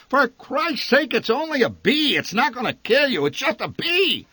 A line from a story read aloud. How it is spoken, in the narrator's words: The old man shouted above her shrieks